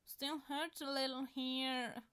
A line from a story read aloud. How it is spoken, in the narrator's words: Styles says, whining